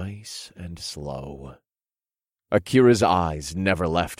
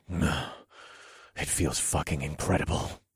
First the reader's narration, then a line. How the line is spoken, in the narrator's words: I grunted